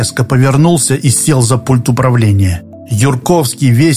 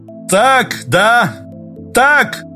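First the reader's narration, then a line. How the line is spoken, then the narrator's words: Shout. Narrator (Russian): выкрикнул он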